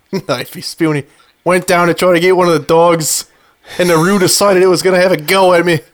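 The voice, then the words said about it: Put-on Australian accent, fairly convincing. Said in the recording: “Can you say that in an Australian accent? ... Not bad. ... Perfect.”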